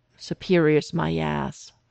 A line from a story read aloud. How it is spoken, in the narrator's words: Stiles grumbled under his breath